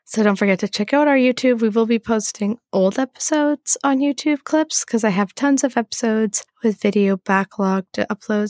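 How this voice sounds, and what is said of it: Sick, hoarse, lost voice. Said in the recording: “I'm super sick... my voice sounds funny... I lost my voice... I just sound a little unique compared to what I usually sound like”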